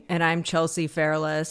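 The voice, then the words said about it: Flat monotone delivery. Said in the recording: “That was a little more monotone than usual.”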